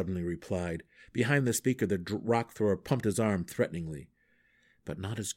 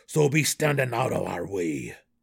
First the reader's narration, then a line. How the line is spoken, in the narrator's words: snarled the Duergar